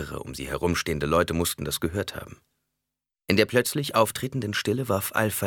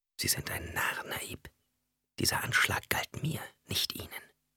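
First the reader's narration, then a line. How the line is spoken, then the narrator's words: Whisper. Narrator (German): Jessica flüsterte ihm zu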